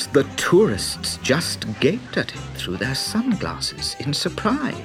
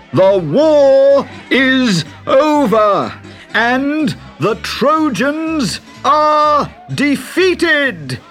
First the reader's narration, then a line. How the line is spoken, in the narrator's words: Summoning his most regal manner, he bellowed